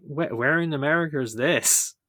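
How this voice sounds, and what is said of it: Bad put-on American accent. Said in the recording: “my really bad American accent”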